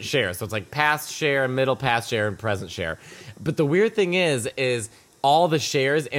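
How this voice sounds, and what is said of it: Usual voice. Nothing is said of it.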